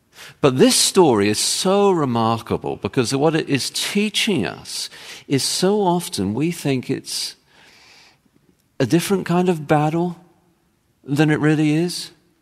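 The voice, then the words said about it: English accent. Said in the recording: “I have an English accent and I say my T's differently for Americans”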